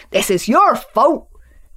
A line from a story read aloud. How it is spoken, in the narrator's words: shouted Farmer Country